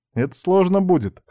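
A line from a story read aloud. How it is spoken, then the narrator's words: Amused snort. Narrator (Russian): хмыкнула она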